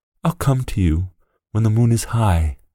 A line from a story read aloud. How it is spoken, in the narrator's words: whispered the boy